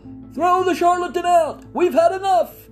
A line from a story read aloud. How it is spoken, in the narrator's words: Someone shouted from the rear of the hall